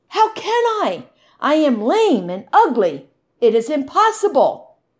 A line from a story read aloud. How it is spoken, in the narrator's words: Much Afraid exclaimed